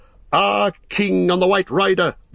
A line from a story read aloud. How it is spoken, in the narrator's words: they shouted